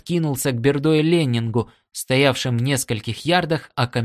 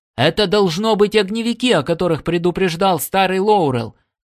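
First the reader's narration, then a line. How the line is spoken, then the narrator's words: Loud shout. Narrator (Russian): Коннор громко крикнул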